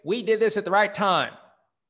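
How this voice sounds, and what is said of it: Half-hearted Jerry Jones impression. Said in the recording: “Jerry Jones would say... that's a lame impersonation... I was kind of half trying to and not really trying to because I knew it would sound more like Ross Perot”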